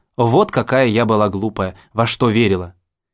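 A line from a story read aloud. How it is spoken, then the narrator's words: Mocking tone. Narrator (Russian): она говорила насмешливым тоном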